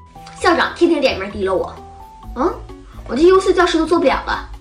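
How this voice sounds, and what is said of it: Imitating a strict teacher's angry outburst. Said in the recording (Chinese): “模仿老师发个飙 ... 不管是语气、表情、动作、口音，跟咱们经历的那些严格毒舌的老师是一模一样”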